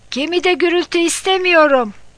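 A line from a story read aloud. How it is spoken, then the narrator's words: Shouting. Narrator (Turkish): diye bağırdı Delfin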